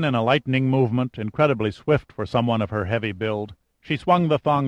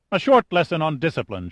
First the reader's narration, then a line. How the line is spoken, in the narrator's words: she snapped